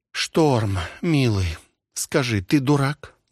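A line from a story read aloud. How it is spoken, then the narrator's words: Sighed. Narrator (Russian): вздохнула Вика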